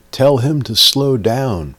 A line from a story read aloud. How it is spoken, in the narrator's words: Guy in the middle yelled to me